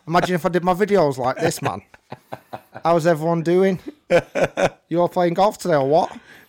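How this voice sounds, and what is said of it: Strong Manchester accent. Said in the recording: “I don't know why I can't do my home accent... So yeah, that's Manchester... So I've tried to neutralize it.”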